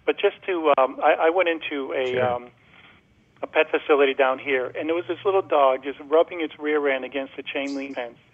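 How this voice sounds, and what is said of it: Boston accent. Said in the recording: “Your accent isn't Florida. ... Yes, I'm a Bostonian.”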